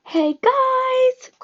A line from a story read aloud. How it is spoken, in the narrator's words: Grover yelled somewhere around us